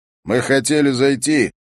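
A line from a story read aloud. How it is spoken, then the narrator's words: Very loud. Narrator (Russian): говорит очень громко, как будто у мальчика были проблемы еще и со слухом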